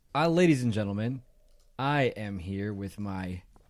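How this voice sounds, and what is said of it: Announcer-style radio voice. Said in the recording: “putting on my radio voice”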